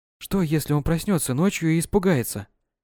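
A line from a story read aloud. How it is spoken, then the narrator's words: Whisper. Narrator (Russian): прошептала над кроваткой сына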